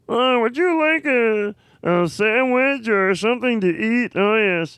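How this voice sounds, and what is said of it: Kermit the Frog character voice. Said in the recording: “I thought it was Bobcat Goldthwait for sure... I didn't think you were doing Kermit the Frog at all.”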